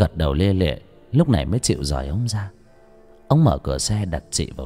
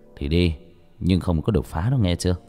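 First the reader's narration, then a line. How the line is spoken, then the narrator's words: Sighing. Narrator (Vietnamese): Cha thở dài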